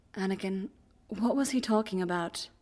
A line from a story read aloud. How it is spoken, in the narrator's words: Obi-Wan says gently